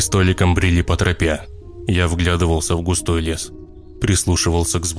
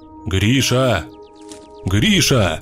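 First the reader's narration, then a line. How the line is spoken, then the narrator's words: Shouting in turns. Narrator (Russian): Кричали мы по очереди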